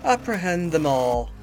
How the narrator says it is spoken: stated calmly

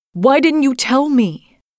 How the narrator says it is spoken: I would have been yelling

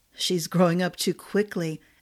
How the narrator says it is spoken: murmured, and shivered with a sense of impending doom

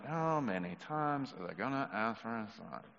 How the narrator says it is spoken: Jesus sighed as he said to them

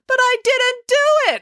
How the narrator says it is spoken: wailed April

